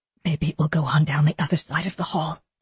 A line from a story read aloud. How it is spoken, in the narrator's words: Theodora whispered